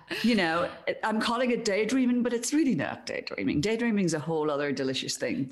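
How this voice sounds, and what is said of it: Irish accent. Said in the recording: “your accent is my favorite accent in all of the world, the Irish accent.”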